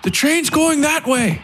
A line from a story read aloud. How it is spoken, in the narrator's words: Elam shouted to the priest